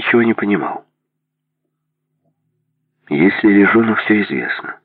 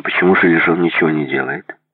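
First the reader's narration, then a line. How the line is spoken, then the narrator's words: Plain. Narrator (Russian): спросил Майкл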